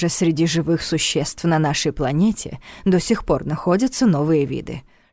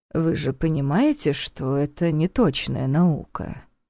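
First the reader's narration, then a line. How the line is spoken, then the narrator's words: Sighing. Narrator (Russian): вздохнул Неф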